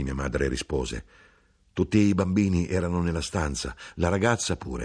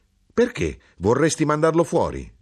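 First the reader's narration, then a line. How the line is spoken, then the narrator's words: Mother exclaiming. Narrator (Italian): esclamò mia madre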